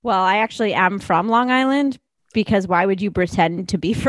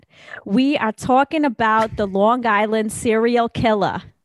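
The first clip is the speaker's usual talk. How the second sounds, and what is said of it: Put-on Long Island accent, sounding Boston. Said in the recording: “I feel like I should do this in a Long Island accent ... No, that was kind of Boston.”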